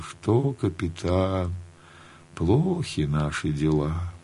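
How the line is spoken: Cheerless. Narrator (Russian): скажет невесело

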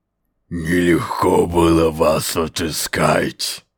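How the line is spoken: Growled. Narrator (Russian): прорычал Скрир

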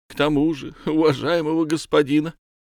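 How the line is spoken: Young man tearful whimpering. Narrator (Russian): сквозь слезы хныкал юный незнакомец

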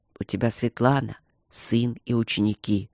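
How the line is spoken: Gentle explanation. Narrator (Russian): объяснил он мягко

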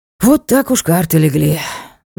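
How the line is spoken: Sighing. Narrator (Russian): вздохнул лорд

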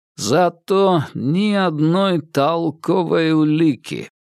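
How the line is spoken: Drawled. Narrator (Russian): протянул Анзоров

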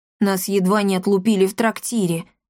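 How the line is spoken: Snorting. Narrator (Russian): хмыкнул

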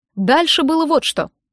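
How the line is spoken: Meaningful chuckle. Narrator (Russian): произнес, многозначительно хмыкнув

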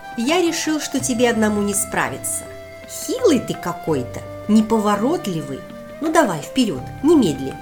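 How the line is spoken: Confident command. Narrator (Russian): Уверенным голосом скомандовал ящерка

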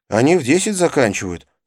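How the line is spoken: Plain. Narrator (Russian): сказал Навин

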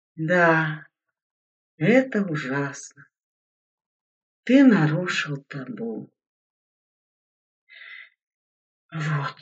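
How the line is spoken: Heavy sigh. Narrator (Russian): тяжко вздохнул Игорь

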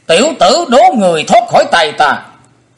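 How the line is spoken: Shouting. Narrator (Vietnamese): Đồng trong tiếng thét đó, Hải Ma giáo chủ

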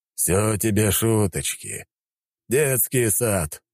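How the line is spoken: Grumbling old man. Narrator (Russian): пробурчал дед

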